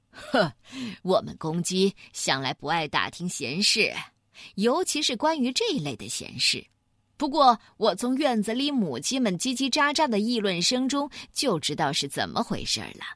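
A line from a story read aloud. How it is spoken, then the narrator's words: Amused. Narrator (Chinese): 大公鸡好笑的说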